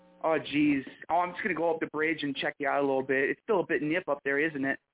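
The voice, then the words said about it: Exaggerated Michigan Yooper accent. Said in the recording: “That was the worst Michigan accent that I could have done ... I always make fun of the Youpers”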